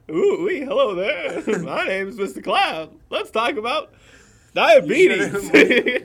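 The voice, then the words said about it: Silly cloud character voice. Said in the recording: “You mean cloud voice isn't normal?”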